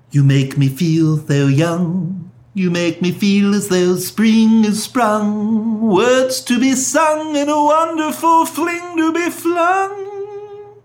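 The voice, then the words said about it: Stewie impression singing. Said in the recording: “Not a bad Stewie.”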